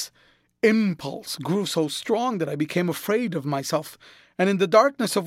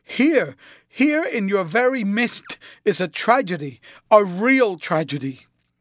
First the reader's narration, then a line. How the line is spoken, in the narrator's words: scream